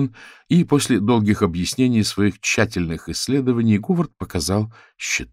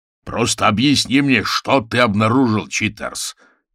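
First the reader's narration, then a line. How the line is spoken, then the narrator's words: Impatient growl. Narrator (Russian): нетерпеливо прорычал Орвилл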